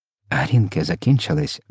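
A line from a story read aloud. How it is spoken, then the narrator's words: Whispered. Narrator (Ukrainian): прошепотів містер Типс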